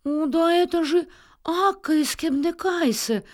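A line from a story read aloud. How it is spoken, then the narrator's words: Joyful cry. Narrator (Russian): радостно вскрикнула госпожа Эрменрих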